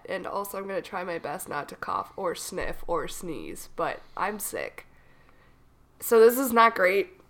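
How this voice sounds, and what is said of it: Froggy, husky voice from a cold. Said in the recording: “I have a cold, and so I sound a little bit froggy ... your voice sounds more sultry? ... it's really seductive ... either really seductive or you just smoke like 2 packs a day”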